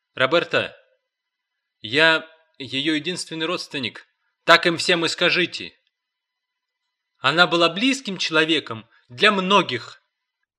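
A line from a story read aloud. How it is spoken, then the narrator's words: Sharp reply. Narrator (Russian): резко ответила Роберта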